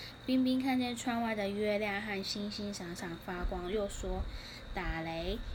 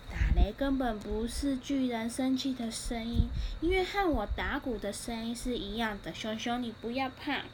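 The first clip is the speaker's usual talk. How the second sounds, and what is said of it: Soft, quiet speaking voice. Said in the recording (Chinese): “小声的对比奇说”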